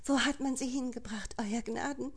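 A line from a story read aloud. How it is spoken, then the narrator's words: Desperate wailing. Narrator (German): jammerte sie verzweifelt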